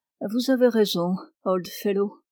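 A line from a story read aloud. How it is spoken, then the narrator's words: Soft, gentle voice. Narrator (French): dit-il doucement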